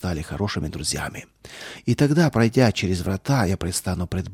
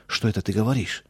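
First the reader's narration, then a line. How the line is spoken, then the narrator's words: Frightened interruption. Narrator (Russian): Амзель испуганно прервал я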